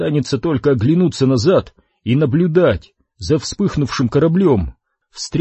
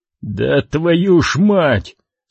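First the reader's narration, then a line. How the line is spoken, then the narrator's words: Relieved exhale. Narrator (Russian): с облегчением выдохнул Крис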